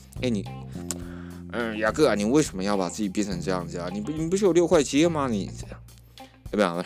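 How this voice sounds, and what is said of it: Put-on mainland Chinese accent. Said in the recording (Chinese): “他是美国人，我不知道为什么发这种大陆口音”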